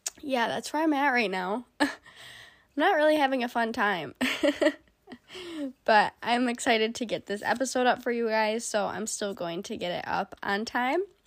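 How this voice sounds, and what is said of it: Congested, stuffed-up sick voice. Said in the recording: “my voice sounds so bad or weird and I almost feel like I'm yelling ... when you're sick and like you just get all stuffed up and your ears get all muffly”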